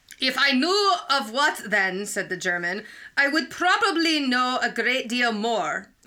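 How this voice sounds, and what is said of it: Put-on German accent drifting Scottish. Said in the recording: “Wow, your German just moved to Scotland. ... I did get Scottish.”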